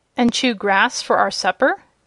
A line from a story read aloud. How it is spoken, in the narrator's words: added the Shaggy Man, laughing